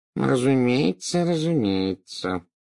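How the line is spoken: Muttering. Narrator (Russian): забормотал Горбин

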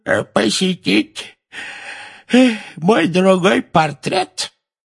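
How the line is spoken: Creaky voice, fake yawn. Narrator (Russian): скрипучим голосом сказал Финеас с притворным зевком

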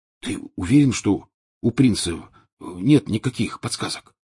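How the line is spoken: Whispered question. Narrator (Russian): шепотом спросил Рон у Гарри

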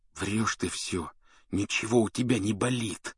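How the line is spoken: Hiss. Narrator (Russian): прошипел он

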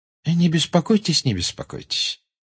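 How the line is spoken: Pleasant. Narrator (Russian): приятным тоном сказал Дамблдор

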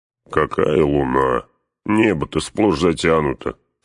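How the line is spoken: Grumbling. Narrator (Russian): проворчал Гимли

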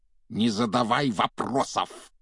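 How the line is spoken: Barking. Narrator (Russian): рявкнул дядя Вернон

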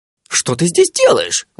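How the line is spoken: Exclaiming. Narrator (Russian): воскликнул джин

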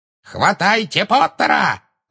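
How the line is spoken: Shrieking. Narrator (Russian): завизжала Беллатриса

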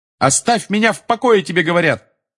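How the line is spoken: Yelling. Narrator (Russian): Заорал Гарри

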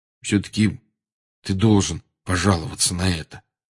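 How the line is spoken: Quiet. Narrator (Russian): тихо сказал Рон

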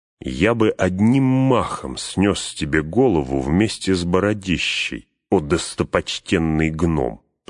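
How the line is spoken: Through gritted teeth. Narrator (Russian): процедил Эумер

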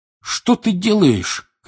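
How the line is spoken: Shouting. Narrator (Russian): кричал Седрик

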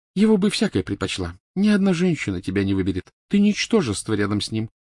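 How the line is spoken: Ghostly cooing. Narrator (Russian): проворковала призрачная Гермиона

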